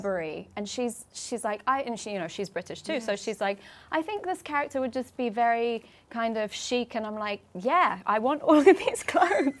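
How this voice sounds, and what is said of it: British accent. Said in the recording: “I'm British, obviously, from my accent, you can tell”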